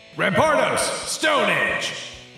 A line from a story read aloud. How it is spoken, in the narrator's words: you hear Mortimer shout out